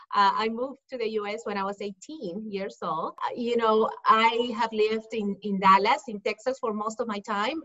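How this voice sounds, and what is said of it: Peruvian Spanish accent. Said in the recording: “I'm originally from Peru, from Lima, Peru. That's why you hear the accent.”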